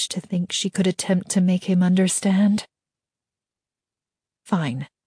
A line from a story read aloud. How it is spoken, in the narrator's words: she said quietly